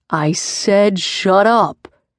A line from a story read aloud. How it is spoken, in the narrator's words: growled